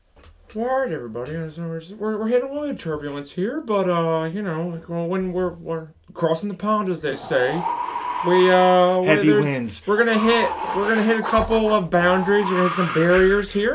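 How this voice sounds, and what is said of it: Owen Wilson impression, pilot announcement. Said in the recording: “your impersonation ... do an impression of Owen Wilson interrupting the flight movie”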